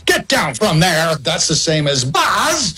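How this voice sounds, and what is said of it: Imitates another person's voice, yelling. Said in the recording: “My Woody is my impression of Tom yelling at his kids.”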